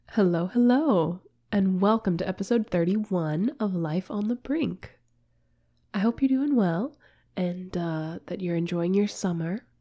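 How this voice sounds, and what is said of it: Congested voice from a cold. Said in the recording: “I'm a little bit under the weather. I'm sure you can probably hear it in my voice... I've caught a cold... if you hear that congestion, that's what it is”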